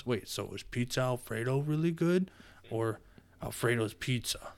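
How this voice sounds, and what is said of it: Imitates a TV character's voice. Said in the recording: “that was my Kevin impression.”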